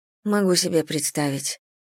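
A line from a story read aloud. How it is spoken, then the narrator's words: Muttered. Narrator (Russian): пробормотала я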